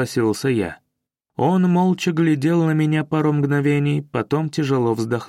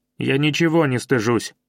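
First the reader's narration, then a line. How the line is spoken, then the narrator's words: Snapped. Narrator (Russian): огрызнулся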